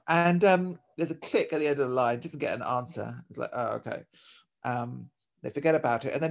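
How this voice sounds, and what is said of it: Usual voice. Nothing is said of it.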